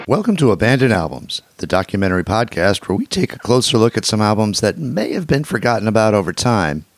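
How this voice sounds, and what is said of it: Slightly hoarse voice. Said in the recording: “As you can probably tell from my voice, it's a little hoarse.”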